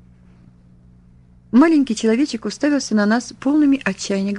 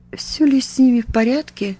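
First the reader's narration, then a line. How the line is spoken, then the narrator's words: Trembling tearful voice. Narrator (Russian): дрогнувшим голосом повторил, и на глаза его навернулись слезы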